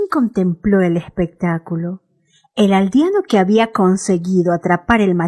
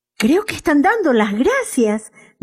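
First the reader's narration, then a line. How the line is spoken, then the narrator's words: Excited shout. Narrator (Spanish): gritó Jean emocionado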